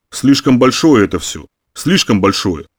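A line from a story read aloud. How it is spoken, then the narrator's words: Grumbling. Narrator (Russian): проворчал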